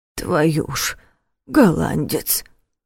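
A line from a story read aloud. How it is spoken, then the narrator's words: Mutter. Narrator (Russian): пробормотал дядя Коля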